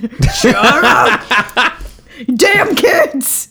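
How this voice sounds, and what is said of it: Stern scolding dad voice. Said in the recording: “dad voice ... That stern dad voice ... That actually sounds a lot like your dad.”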